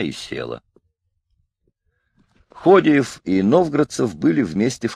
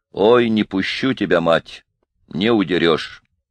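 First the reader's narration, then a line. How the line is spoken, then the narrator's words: Stern. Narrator (Russian): Лука Селестенников сказал ей строго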